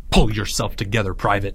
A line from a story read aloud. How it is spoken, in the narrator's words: Leo snapped